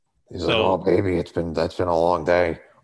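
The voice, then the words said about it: Raspy character voice. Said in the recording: “with that raspy voice”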